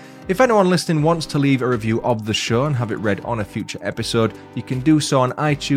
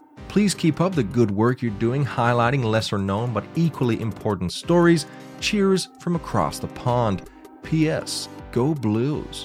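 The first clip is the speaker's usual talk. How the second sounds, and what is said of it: Bad put-on American accent. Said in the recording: “my horrific American accent there”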